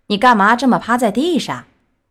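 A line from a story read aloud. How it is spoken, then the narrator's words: Plain. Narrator (Chinese): 他们问皮诺乔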